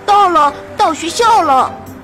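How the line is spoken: Excited shout. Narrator (Chinese): 阿特看到学校就叫了出来

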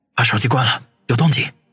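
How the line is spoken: Muttered. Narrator (Chinese): 王宇嘀咕道

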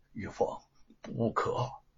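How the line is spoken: Low voice. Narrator (Chinese): 吴承恩却低声的说

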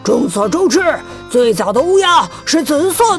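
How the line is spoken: Angry roar. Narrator (Chinese): 一只淡紫色的乌鸦愤怒地吼了起来

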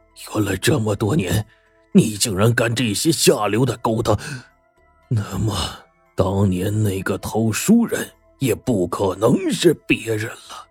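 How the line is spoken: Furious. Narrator (Chinese): 吴峥嵘 只怒不可遏 说

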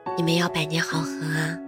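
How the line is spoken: Laughing. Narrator (Chinese): 笑着说

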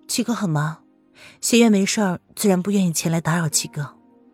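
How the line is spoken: Faint smile, wistful. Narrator (Chinese): 风清晨淡淡的勾起了一抹笑容，略有感慨的说

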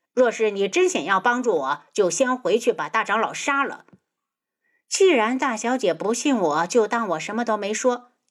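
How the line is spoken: Cold. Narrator (Chinese): 苏如意冷声

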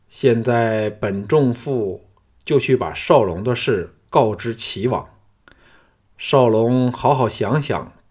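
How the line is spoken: Slow, after pause. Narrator (Chinese): 顿了顿 缓缓地说

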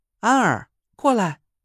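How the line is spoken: Calling out. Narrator (Chinese): 严柳 朝屋里喊了一句

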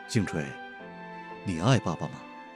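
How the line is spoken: Calm, gentle. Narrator (Chinese): 玉爸爸一脸的平静，温柔的说道

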